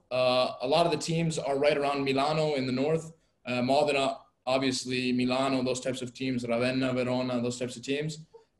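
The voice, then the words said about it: Italian-accented pronunciation of names. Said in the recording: “has a great Italian accent ... the Italian accent comes from the lovely mom ... why are you trying to speak like an Italian?”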